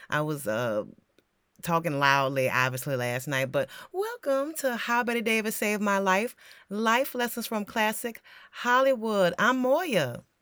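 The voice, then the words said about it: Slightly hoarse, croaky voice. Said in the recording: “sorry for my voice. I have a little frog in my throat.”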